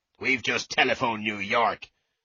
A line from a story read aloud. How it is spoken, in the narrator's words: the sergeant said angrily